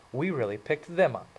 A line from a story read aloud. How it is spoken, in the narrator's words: Marcia said